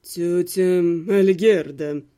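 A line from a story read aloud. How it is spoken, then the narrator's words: Purring man. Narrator (Russian): промурлыкал блондин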